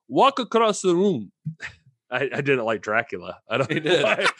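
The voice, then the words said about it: Deliberately bad Italian accent. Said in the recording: “He speaks very broken English. He's Italian, so I'm going to do a very bad Italian impersonation.”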